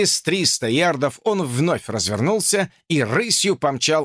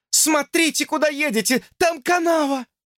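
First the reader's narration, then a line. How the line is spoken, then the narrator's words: Warning shout. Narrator (Russian): Люси, предостерегающе, закричала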